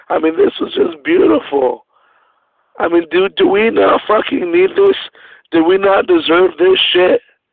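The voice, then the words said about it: Worn-out, strained voice. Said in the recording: “Sorry, guys, if I'm hard to understand. I my voice is kind of shot”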